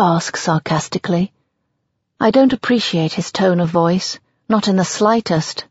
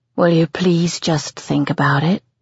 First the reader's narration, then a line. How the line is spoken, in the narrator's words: I sigh, tiredly